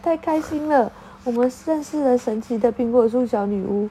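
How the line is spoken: Laughing happily. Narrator (Chinese): 雷亚笑着说

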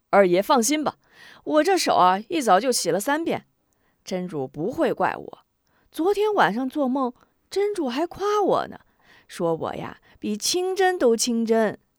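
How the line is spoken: Sly chuckle. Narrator (Chinese): 爱五子嘿嘿一笑

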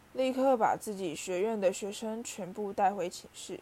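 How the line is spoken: Stern deep command. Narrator (Chinese): 他沉声喝道

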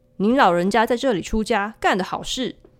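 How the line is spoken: Sudden remark. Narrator (Chinese): 景清出其不意说道

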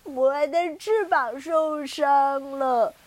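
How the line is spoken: Crying little penguin. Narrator (Chinese): 第一只小企鹅哭着说

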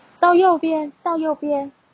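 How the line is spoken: Shouting. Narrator (Chinese): 我会要大喊

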